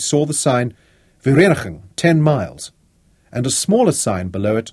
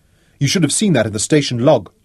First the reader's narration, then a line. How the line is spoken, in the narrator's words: Lothar snapped at him